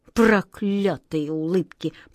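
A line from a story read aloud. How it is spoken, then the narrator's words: King speaking through gritted teeth. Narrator (Russian): процедил сквозь зубы король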